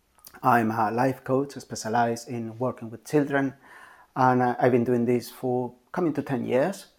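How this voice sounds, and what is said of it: Spanish accent. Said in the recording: “probably you can tell by my accent, I'm Spanish”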